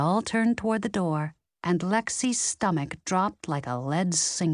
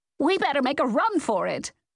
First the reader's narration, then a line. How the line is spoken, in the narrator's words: Nance yelled